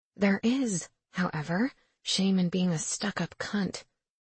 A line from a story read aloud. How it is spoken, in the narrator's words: I mutter under my breath